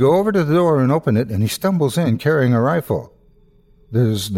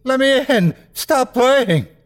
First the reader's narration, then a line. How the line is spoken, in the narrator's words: He's screaming